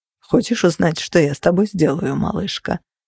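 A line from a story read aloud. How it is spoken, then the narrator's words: Perfectly calm. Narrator (Russian): совершенно спокойно спросил он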